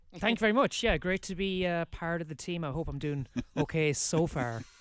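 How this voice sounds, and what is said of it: Distinctive, recognizable accent. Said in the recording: “People will recognize your accent immediately.”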